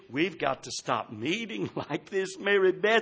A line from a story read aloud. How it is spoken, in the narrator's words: he whispered